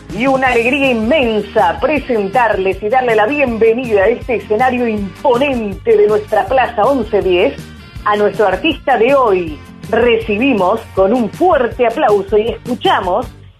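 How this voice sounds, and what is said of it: Exaggerated radio announcer voice. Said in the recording (Spanish): “poniendo voz locutorí”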